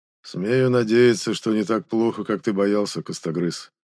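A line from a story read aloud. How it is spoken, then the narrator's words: Gloomy grumble. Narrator (Russian): мрачно буркнул Хёльдви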